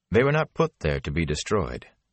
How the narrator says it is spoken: the Aes Sedai said curtly

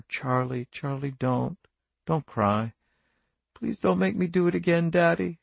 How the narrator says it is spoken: he murmured

